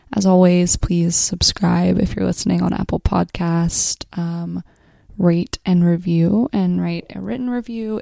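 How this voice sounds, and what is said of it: Scratchy, under-the-weather voice. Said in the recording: “hear it in my voice ... my throat has definitely felt very scratchy”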